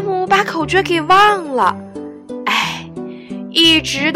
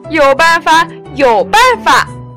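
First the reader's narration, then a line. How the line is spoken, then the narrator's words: Anxious shout. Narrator (Chinese): 球球着急地喊了起来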